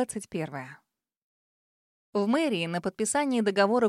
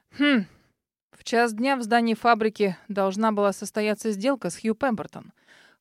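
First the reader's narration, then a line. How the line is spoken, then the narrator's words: Man's thoughtful hum. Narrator (Russian): хмыкнул мужчина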